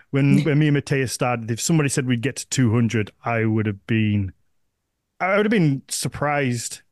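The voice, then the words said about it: Northern English accent. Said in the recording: “my little northern accent”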